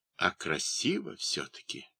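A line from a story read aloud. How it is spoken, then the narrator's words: Quiet wounded man. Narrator (Russian): тихо говорит товарищам по подводе раненый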